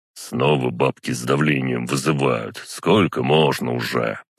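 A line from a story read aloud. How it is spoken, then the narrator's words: Grumbling. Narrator (Russian): пробурчал он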